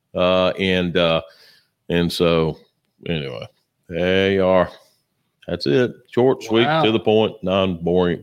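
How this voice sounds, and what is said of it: Flat monotone speaking voice. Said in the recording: “except for my monotone voice”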